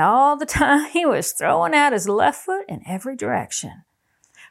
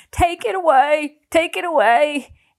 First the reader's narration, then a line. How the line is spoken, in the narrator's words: shaking like a leaf, the cold sweat streaming out of every pore, and gasping and saying